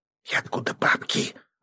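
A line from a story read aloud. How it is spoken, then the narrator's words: Breathy exhale. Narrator (Russian): выдохнула Екатерина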